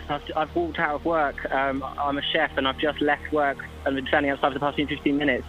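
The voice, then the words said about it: Nervous-sounding voice. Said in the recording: “You sound a little nervous. ... I think you can hear by my voice how nervous I am.”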